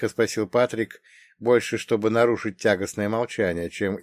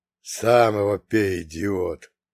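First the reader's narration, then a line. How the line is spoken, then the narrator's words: Hissed. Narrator (Russian): прошипел Фредо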